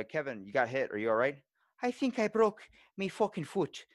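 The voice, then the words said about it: Imitates another person's accent. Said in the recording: “I started developing his accent after talking to him for a while”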